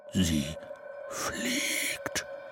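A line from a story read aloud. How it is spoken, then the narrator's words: Whispered. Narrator (German): flüsterte er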